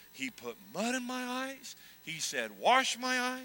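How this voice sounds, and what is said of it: Usual voice. Nothing is said of it.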